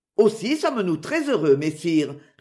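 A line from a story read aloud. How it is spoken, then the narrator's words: Answered laughing. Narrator (French): répondit Robin en riant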